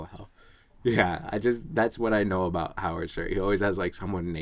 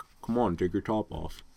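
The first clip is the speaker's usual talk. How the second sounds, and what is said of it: Howard Stern impression. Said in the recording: “my best Howard Stern impression... I was doing a Howard Stern”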